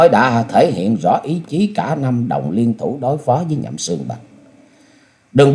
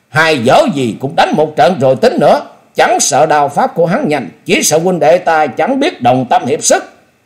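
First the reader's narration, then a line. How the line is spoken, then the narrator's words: Loud shout. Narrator (Vietnamese): Từ Ngũ Phúc cũng hét lớn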